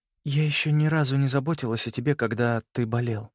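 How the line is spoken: Muttered. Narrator (Russian): пробормотала она

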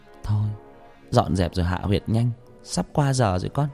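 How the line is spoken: Muttering old woman. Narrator (Vietnamese): Bà lẩm bẩm

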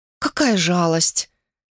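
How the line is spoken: Sighing. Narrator (Russian): Она вздохнула

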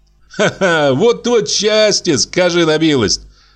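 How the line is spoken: Merry laughter. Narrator (Russian): весело засмеялся он

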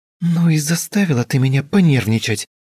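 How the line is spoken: Abrupt exclamation. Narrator (Russian): воскликнула без предисловий

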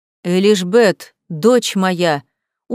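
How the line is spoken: Habitual parental exclamation. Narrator (Russian): уже привычно воскликнул родитель

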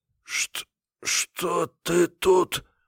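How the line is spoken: Hoarse. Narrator (Russian): прохрипел я

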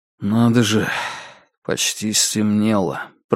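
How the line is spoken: Muttering. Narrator (Russian): пробормотал я

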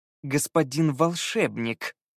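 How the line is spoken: Correcting through clenched teeth. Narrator (Russian): сквозь зубы поправил Скай

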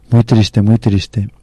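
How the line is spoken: Uncomfortable king's murmur. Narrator (Spanish): El rey se sentía incómodo, murmurando

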